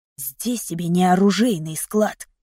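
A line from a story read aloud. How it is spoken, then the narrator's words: Angry whisper. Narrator (Russian): сердито прошептал Нейт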